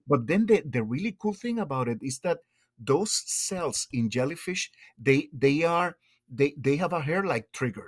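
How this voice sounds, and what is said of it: Thick accent. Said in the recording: “get enthusiastic and my accent gets thicker”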